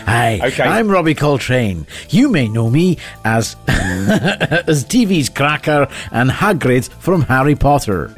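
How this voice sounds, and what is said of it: Cornish accent shifting into character voice. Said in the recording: “I like the way that you moved into the Cornish accent he became Hagrid ... He moved from Jethro to Hagrid.”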